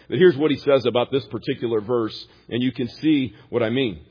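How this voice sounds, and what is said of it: Country American accent. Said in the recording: “the country boy American accent that I have for you. A little country bumpkin.”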